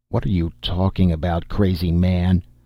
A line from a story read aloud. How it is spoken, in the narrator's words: rumbled the troll wife